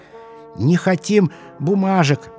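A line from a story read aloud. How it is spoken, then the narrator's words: Squeaking chorus. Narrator (Russian): пищали все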